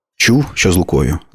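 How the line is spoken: Plain. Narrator (Ukrainian): запитала

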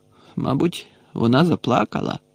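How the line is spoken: Sorrowful grumble. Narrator (Ukrainian): скрушно буркнув Гаррі

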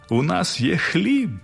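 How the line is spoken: Joyful group shouting. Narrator (Ukrainian): радісно гукали вони

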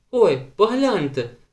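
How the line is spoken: Sudden exclamation. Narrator (Ukrainian): вигукнула раптом Беата

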